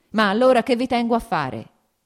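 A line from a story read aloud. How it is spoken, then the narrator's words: Shouting. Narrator (Italian): gridò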